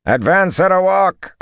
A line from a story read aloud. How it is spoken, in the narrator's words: Arganda bellowed